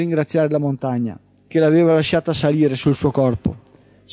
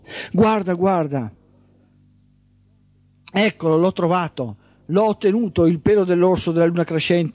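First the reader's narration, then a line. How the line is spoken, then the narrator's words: Young woman yelling. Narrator (Italian): urlava la giovane donna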